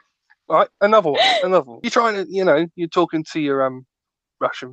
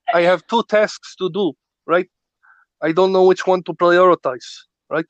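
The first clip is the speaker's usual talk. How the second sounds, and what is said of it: Put-on Russian accent. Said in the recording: “Is this your attempt to a Russian accent? ... You sound a bit like Arnold Schwarzenegger.”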